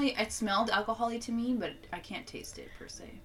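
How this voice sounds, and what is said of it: Usual voice. Nothing is said of it.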